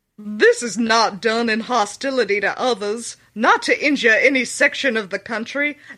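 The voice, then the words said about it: Well-done put-on accent. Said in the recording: “The accent's so good”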